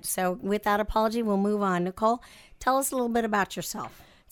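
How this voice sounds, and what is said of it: Congested, nasal sick voice. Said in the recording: “apologize for my voice. ... This is not my normal voice. It's just my sinus infection voice.”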